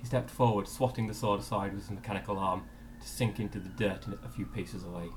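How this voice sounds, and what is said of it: Middle-class English accent. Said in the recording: “I would say I have a middle-class English accent.”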